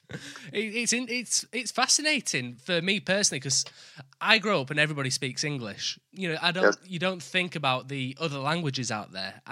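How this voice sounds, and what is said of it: Thick northern English accent. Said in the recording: “I live in the north of England, so my accent is a lot more thicker than what it is down in London”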